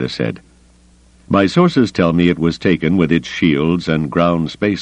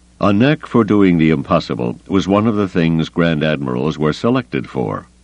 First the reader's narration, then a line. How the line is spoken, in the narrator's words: Carda said dryly